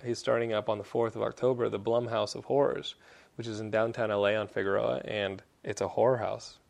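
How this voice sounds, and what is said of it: Texan accent. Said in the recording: “my Texan accent”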